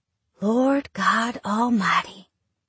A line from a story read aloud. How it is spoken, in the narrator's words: I whisper